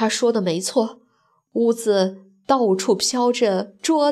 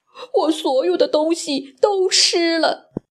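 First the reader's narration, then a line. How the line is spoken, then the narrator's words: Crying. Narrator (Chinese): 小猪 他哭着说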